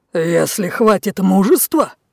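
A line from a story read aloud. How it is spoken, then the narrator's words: Growled. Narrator (Russian): зарычал Лев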